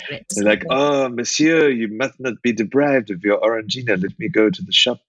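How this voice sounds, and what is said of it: Put-on French accent. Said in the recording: “I think you should do your pictures in that accent from now on ... outside, exactly, of my normal voice.”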